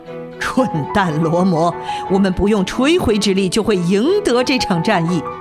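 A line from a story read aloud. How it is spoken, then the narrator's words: Wild laughter. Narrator (Chinese): 他狂笑了起来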